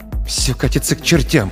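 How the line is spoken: Muttering. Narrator (Russian): пробормотал Алекс

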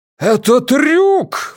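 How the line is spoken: Exclaimed. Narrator (Russian): воскликнул Ван Эк

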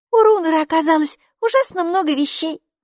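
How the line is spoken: Giggling. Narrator (Russian): хихикнула Майки

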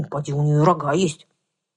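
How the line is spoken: Contemptuous snort. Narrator (Russian): Кобыла презрительно фыркнула

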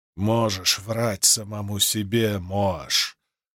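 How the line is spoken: Growled. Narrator (Russian): прорычал Тефт

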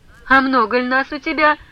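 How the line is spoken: Loud laughing question. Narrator (Russian): громко смеясь, спросил Самоквасов

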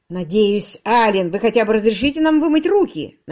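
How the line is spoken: Grumbling. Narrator (Russian): проворчал Уитерс

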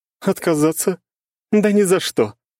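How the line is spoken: Laughing. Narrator (Russian): рассмеялась Елизавета

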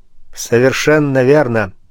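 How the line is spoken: Plain. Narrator (Russian): сказал Пушкин

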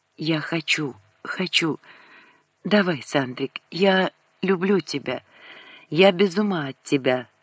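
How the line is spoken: Whispered. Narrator (Russian): зашептала

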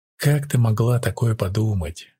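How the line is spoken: Indignant whisper. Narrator (Russian): шепотом возмутилась

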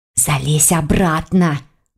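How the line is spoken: Hissed. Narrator (Russian): прошипела Лиля

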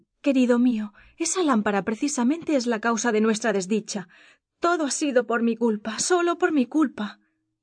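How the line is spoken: Princess exclaiming. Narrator (Spanish): Y exclamó la princesa

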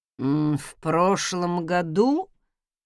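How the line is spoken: Drawled. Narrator (Russian): протянул он

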